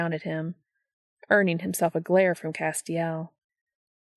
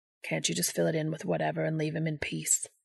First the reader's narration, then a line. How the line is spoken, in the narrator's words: Balthazar mutters